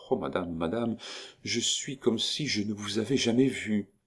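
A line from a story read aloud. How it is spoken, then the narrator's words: Murmuring. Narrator (French): C'était la vie de Nita qui murmurait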